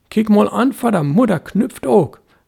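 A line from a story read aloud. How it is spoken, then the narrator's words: Boy calling merrily. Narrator (German): rief der Junge lustig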